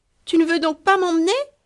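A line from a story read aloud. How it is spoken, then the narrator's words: Child exclaiming, about to cry. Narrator (French): s'écria le petit en commençant à frotter ses yeux pour montrer qu'il avait dessein de pleurer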